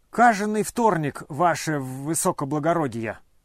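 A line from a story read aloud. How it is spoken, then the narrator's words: Muttering then giggling. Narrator (Russian): пробормотал и захихикал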